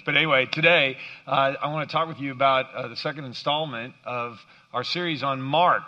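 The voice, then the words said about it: Hoarse, cracking voice. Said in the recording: “I woke up with a bit of a frog in my throat ... my voice is kind of cracking today”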